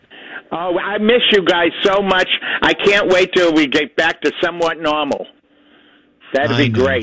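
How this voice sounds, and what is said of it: Boston accent. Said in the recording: “he has that Boston accent”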